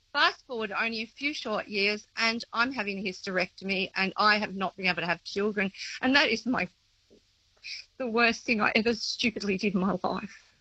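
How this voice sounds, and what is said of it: Emotional, tearful voice. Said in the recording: “I wasn't going to get emotional. ... it's very emotional”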